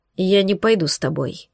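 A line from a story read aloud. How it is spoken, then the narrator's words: Cold, decisive reply. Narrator (Russian): ответил Сьёгард холодно, раз и навсегда решительно обрывая нелепый и ненужный разговор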